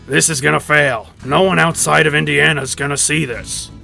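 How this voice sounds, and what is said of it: Imitates another person's voice. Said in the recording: “my Gene Hackman impression. It's probably the best Gene Hackman impression of all time”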